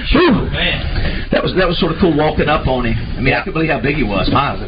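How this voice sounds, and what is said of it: Out of breath, breathing hard. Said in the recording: “out of breath just from walking ... I am. I just walking up the stairs ... breathing hard”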